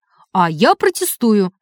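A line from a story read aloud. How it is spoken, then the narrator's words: Sharp reply. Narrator (Russian): резко ответил судья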